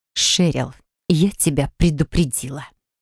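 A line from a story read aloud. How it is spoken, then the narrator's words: Hiss. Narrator (Russian): прошипела Нереид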